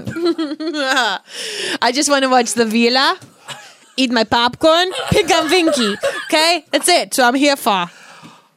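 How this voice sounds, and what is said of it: Made-up accent heavy on V sounds. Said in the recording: “I don't even know what accent I just made up ... I just try to have as many V's as possible ... every word started with V”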